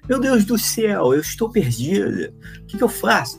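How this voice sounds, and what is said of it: Put-on Carioca accent. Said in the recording (Portuguese): “tinha um sotaque de carioca assim, né?”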